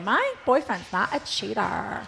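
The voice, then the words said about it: Imitates another person's voice. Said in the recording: “That's a very good imitation.”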